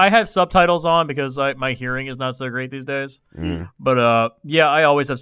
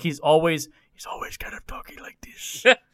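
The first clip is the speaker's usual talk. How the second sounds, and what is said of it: Whispery hissing impression of Salazar. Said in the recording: “the hissing for me ... He constantly whispers. ... That's a pretty good impersonation.”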